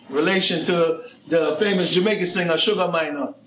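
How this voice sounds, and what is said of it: Put-on Jamaican accent. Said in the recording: “I'm doing that accent because he's Jamaican”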